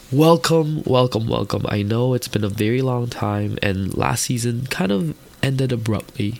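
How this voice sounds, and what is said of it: Stuffy, congested sick voice. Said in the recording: “I'm really sick right now... You can hear it in my voice... why am I listening to somebody stuffy?”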